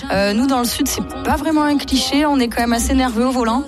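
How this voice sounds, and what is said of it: Southern French accent. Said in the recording (French): “je suis sudiste, je pense que ça s'entend mon petit accent.”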